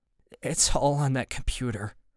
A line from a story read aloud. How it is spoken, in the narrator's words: Greg says, his voice shaky but calm